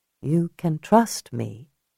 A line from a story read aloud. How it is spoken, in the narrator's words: Julia said softly